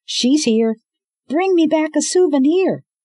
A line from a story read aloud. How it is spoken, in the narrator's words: Eco yelled